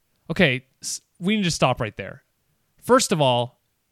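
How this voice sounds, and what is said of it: Usual voice. Nothing is said of it.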